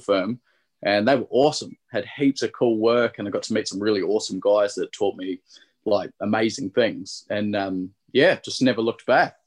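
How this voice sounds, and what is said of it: Mixed Australian and New Zealand accent. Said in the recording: “you're picking up the accent strong ... it's mongrel now ... it's sounding pretty Aussie, but he's sound definitely Kiwi as well”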